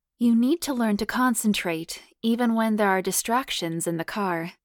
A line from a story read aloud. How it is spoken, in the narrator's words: she purred hotly